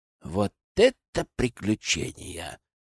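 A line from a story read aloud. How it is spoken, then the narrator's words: Envious sigh. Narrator (Russian): завистливо вздохнул Сева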